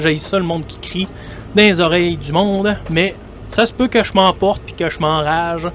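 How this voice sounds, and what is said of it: Québécois French accent. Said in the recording (French): “vous allez euh, sûrement le reconnaître par mon accent. ... je suis un Québécois”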